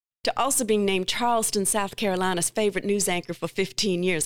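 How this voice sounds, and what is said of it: Put-on Southern accent. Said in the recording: “I just had to say that with a Southern accent.”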